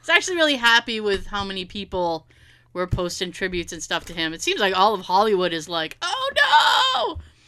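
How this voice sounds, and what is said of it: Massachusetts accent. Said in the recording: “we're Massachusetts, as you can tell by the horrible accents”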